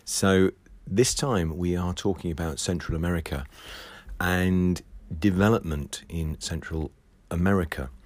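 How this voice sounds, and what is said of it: Husky voice from a cold. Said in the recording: “I'm just recovering from a bit of a cold, and my voice has gone a bit husky”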